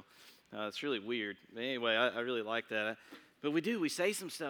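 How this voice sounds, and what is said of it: Usual voice. Nothing is said of it.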